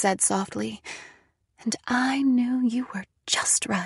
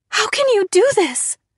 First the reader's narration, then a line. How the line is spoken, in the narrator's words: I cried